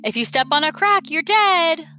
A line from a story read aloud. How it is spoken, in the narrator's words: Lola had yelled